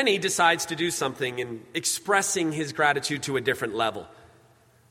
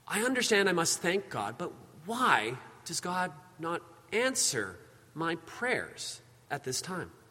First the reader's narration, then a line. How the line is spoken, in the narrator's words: quietly in prayer, a silent voice comes upon him, and he says